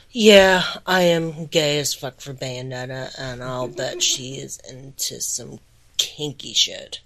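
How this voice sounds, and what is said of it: Deep, congested voice. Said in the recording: “recovering from one hell of a cold right now... my voice is super deep and super sexy”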